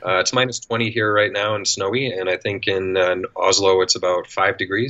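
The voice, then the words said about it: Canadian accent. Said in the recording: “if you can't tell by the accent, I'm Canadian.”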